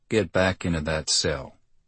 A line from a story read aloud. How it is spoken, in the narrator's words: the man said quietly